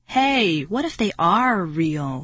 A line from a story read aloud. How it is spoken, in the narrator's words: Marty exclaimed